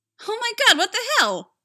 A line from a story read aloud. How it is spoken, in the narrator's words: yelled